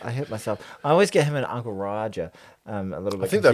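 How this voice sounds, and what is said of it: Usual voice. Nothing is said of it.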